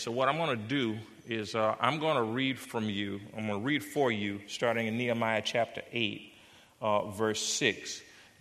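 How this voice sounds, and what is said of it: American Southern accent. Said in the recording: “If you didn't catch my accent, I grew up in the South. I'm a South Carolina boy ... I throw a few Southern words like y'all and ain't”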